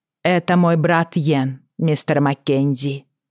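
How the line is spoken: Firm, defiant. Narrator (Russian): сказала она твердым голосом, словно бросая Роджеру вызов

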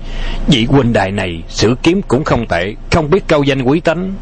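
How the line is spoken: Calm, fearless, smiling. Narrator (Vietnamese): Tống Sư Đạo vẫn không hề sợ hãi, nở một nụ cười tiêu sái ung dung

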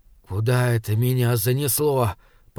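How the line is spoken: Whispered. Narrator (Russian): прошептал

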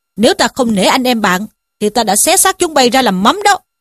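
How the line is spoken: Shouting. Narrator (Vietnamese): Trí Thâm quát bảo

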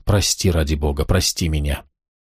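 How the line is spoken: Whisper. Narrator (Russian): Прошептал

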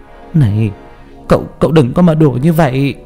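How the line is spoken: Trembling voice. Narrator (Vietnamese): Mẹ tôi run rẩy

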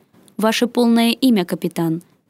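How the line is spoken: Stern voice. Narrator (Russian): произнесло изображение строгим голосом Нордиса

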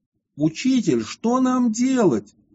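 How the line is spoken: Group exclaiming. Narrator (Russian): все воскликнули к Ервану

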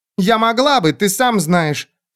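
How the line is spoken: Unexpectedly loud. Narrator (Russian): сказала она неожиданно громко

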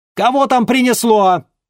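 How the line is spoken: Loud exclamation. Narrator (Russian): громко воскликнула она

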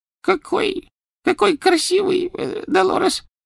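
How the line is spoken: Female babbling. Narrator (Russian): пролепетала она

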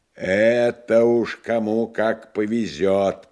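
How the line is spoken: Booming drone. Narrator (Russian): прогудел критик Абабков

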